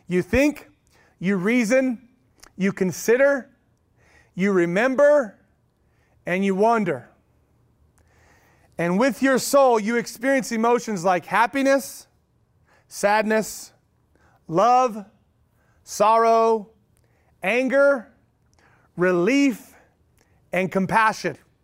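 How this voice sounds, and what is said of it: Oklahoma accent. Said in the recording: “don't let the Oklahoma accent get you”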